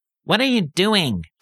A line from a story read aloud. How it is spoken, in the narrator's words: squeaky demand